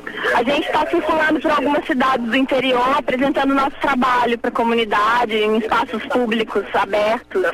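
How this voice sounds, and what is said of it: Brazilian Minas Gerais accent. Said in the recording (Portuguese): “esse sotaque, você é carioca? ... Não, eu sou mineira.”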